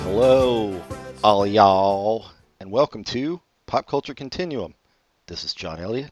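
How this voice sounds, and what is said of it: Put-on Southern US accent. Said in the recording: “I don't have a southern accent like John ... I'm trying to represent Atlanta”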